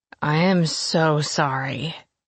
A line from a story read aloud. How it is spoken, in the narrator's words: he slurred